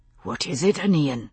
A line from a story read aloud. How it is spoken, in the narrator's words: he whispered